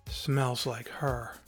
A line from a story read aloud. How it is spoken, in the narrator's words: he sighed